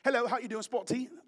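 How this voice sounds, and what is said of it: Mock British accent. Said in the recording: “already with an accent ... If you ever talk to a British person”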